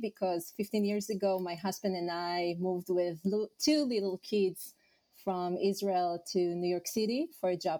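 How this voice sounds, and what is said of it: Slight Israeli accent. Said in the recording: “you have a bit of an accent ... I'm originally from Israel”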